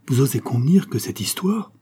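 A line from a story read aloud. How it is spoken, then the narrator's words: Exclaimed. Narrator (French): s'écria Concepcion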